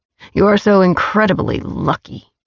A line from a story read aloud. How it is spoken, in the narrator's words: he snarled